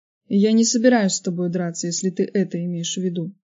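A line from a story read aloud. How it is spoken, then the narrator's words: Calm, disgusted and pitying. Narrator (Russian): спокойно ответил Роб, и в его голосе слышалось отвращение и жалость одновременно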